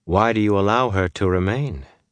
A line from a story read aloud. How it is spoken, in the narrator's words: Amice asked calmly